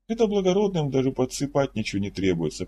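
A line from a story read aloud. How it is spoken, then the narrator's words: Traveler, calm. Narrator (Russian): продолжал спокойно говорить путешественник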